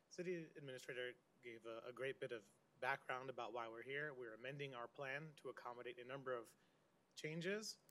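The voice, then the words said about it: Hoarse, strained voice. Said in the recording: “Forgive me for a bit of laryngitis.”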